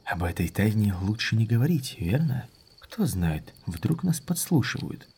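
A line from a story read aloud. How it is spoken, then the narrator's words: Lowered whisper. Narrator (Russian): Он понизил голос, шепнув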